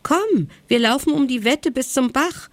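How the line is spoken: Exuberant call. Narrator (German): rief er übermütig

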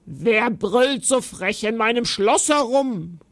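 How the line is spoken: Giantess growling. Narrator (German): knurrte die Riesin

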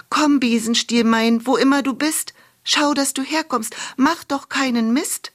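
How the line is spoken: Calling out. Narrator (German): rief sie

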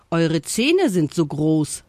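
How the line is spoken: Loud giggling, monkey. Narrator (German): sagte der Affe und kicherte laut

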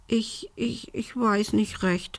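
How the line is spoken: Stammering. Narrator (German): stotterte Belinda

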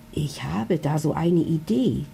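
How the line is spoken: Whispered into ear. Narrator (German): flüstert er ihr ins Ohr

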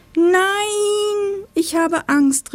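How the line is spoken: Calling out. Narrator (German): rief es

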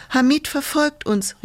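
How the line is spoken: Calling out. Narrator (German): rief Fosteriana

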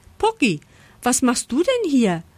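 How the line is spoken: Surprised call. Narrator (German): ruft Lisa überrascht

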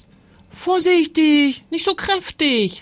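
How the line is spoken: Called out. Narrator (German): rief Timon

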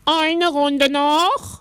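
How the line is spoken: Calling out. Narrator (German): rief der Zirkusdirektor

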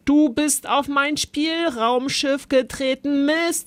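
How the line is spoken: Bellow. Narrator (German): brüllte Zolli

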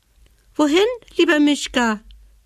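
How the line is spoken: Squeaky dormouse. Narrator (German): piepste die Haselmaus

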